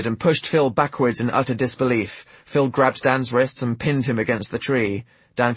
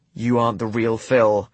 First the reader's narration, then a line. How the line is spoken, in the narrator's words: Dan said in a flat, emotionless tone